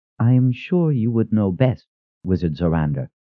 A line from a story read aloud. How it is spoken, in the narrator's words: said in an even voice